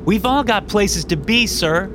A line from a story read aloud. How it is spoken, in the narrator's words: a woman called out